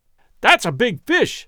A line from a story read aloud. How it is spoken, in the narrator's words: I exclaimed excitedly